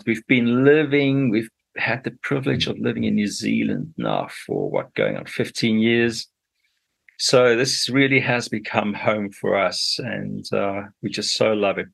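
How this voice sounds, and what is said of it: African English accent. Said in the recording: “I'll never lose that twang... I don't know whether twang is the right way to describe an African accent.”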